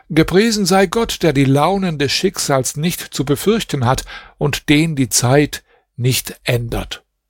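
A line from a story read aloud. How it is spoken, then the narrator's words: Astonished exclaiming. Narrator (German): Musa wunderte sich über den traurigen Zustand dieser Stadt und rief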